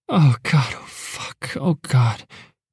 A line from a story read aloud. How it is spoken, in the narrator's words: she breathed